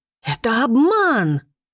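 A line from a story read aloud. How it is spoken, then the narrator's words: Shrieking. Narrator (Russian): взвизгнула она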